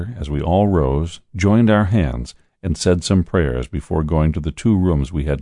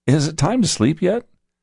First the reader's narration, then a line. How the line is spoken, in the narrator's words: he rubbed his eyes and said